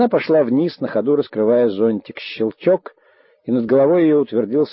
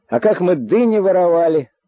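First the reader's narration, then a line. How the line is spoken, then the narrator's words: Shout down stairwell. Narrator (Russian): закричал в лестничный пролет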